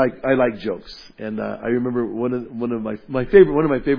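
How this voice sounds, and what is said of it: Usual voice. Nothing is said of it.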